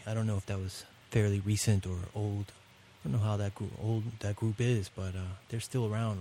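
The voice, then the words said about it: Richmond Virginia twang accent. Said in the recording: “Can you hear the twang in my Richmond twang in my accent? It comes out sometimes by accident.”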